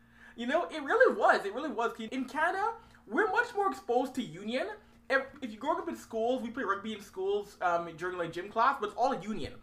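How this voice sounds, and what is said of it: Canadian accent. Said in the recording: “a Canadian accent. I'm guessing that's what it is.”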